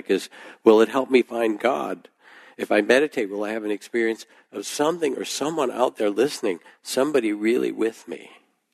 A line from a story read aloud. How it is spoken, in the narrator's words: she said, her voice rising in a crescendo that bordered on real panic